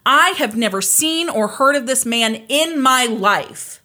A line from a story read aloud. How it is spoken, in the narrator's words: Candy yelled out in court